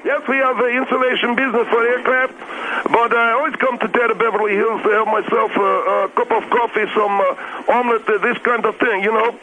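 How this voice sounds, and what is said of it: Eastern accent. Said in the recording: “That's the Eastern accent you wanted to hear.”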